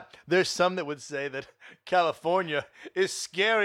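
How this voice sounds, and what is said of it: Usual voice. Nothing is said of it.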